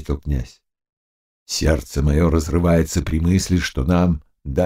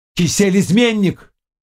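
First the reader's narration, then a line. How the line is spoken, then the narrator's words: Exclaiming. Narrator (Russian): воскликнул Барановский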